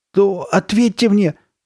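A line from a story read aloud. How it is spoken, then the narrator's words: Shout. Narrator (Russian): кричала Карли Бет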